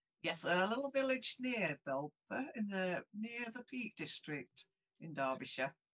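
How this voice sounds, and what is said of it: Strong Derbyshire (Belper) English accent. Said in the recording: “the Belper accent coming through strong”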